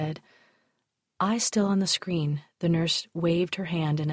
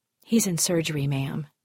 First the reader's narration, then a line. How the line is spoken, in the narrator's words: reported, her voice emotionless